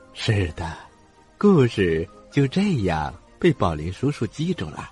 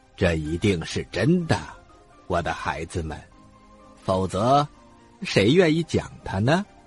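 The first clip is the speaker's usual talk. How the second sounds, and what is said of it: Quiet, soft-spoken voice. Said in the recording (Chinese): “小声”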